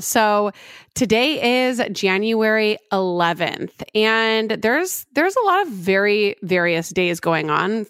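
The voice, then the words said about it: Voice not fully recovered. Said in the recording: “My voice is not back”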